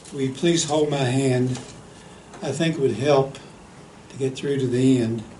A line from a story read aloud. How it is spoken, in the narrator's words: the lad feebly said